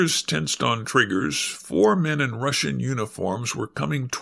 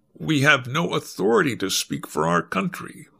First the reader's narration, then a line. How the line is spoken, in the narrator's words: Moss said stiffly